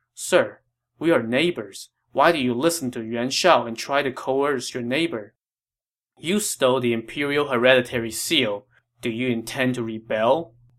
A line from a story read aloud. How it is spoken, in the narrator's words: Liu Biao replied